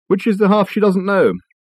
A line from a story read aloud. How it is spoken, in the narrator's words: Richard sighed